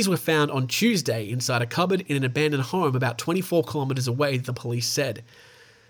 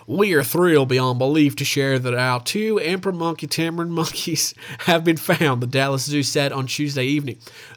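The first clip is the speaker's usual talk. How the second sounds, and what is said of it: Put-on Texan accent. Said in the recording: “I'm going to talk in a Texan accent, of course.”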